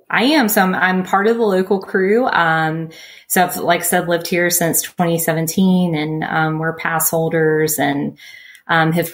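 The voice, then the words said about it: Slight Southern US twang. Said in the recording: “you can probably tell I got a little southern twang”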